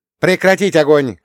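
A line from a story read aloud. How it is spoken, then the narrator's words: Shout. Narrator (Russian): крикнула Рута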